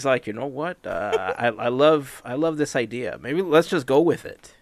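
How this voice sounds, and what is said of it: Terrible impression of Bobby. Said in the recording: “my absolute best/worst Bobby impression... Yeah, it's terrible.”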